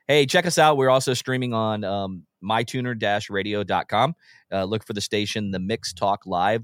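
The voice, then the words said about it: Hoarse, sore-throated voice. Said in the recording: “I have a little bit of a sore throat.”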